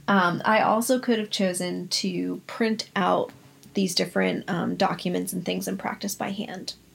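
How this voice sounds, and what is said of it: Strained, failing voice. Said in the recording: “My voice is just not working with me”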